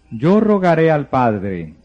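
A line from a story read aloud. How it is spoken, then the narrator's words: Plain. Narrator (Spanish): dijo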